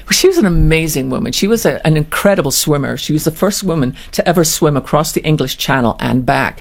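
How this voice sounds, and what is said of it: Speaks with a noticeable accent. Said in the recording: “you got the great accent.”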